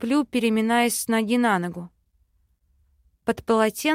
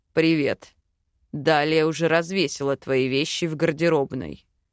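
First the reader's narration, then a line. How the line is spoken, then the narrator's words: Calm remark. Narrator (Russian): спокойно подмечает Хак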